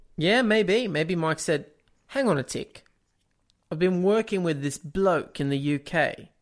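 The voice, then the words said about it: Put-on accent. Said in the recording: “why do you have the accent still?”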